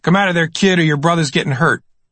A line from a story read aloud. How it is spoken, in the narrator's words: The gunman now was shouting toward me